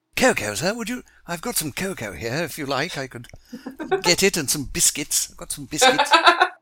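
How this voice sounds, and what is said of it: Cartoon character voice. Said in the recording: “his Binky impression”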